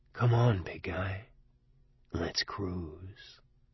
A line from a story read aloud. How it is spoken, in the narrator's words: deep in my mind near the center a voice whispered